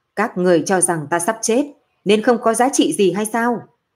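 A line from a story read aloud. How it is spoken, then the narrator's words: Faint, angry tone. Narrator (Vietnamese): Nam Môn giọng nói mang theo nhàn nhạt, sắc mặt tức giận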